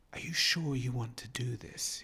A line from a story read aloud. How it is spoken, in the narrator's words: He whispered